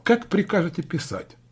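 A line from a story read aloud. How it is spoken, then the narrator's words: Businesslike tone. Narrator (Russian): продолжал он деловым тоном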